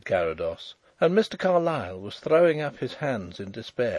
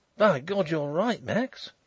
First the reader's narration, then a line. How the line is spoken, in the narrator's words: he exclaimed